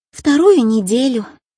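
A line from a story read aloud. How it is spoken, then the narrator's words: Sigh. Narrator (Russian): он вздохнул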